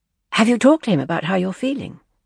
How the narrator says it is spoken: Leslie had said quickly

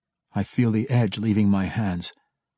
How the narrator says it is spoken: Drizzt replied quietly

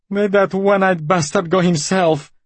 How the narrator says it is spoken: She yelled furiously through her tears

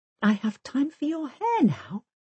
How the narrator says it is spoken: she whispers to Pirate

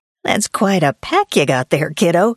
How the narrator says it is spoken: she said, and laughed raucously

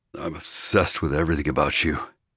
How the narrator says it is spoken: he growled under his breath

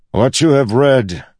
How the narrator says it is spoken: he bellowed

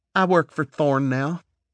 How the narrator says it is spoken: she replied in her thick southern accent

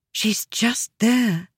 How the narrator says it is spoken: Aliza whispered

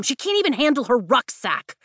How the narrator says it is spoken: Mira snaps

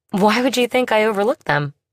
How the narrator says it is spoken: He chuckled

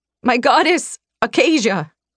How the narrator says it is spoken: I cried out, my voice cracking

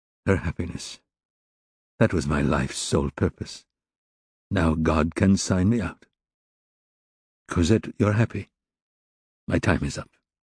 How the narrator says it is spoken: in a toneless voice, talking to himself, he murmured

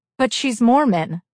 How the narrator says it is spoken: Shauna blurted

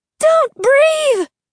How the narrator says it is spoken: Olivia screamed

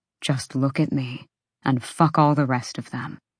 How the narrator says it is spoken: Hunt murmured

